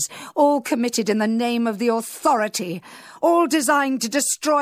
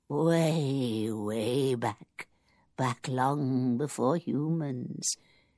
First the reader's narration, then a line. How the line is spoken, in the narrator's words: he said, and his voice was soft and cracked and frail